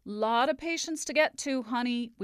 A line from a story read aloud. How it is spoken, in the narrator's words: we heard again and again